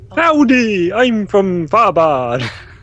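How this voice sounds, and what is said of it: Mock posh accent. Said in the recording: “That was your posh accent.”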